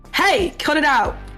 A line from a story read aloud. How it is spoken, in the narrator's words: One of the cops will just like shout from over his shoulder